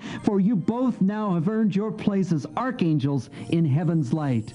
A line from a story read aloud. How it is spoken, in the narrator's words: laughed Finnegan